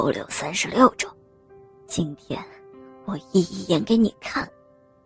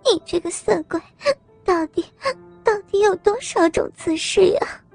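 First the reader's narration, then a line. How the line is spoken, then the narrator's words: Breathy coquettish voice. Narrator (Chinese): 娇喘的说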